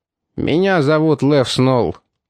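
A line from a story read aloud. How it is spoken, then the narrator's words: Gloomy. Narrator (Russian): мрачно ответил гангстер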